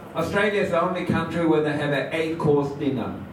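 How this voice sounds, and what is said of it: Australian accent, Melbourne. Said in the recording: “you can tell by his accent that he was really from Melbourne”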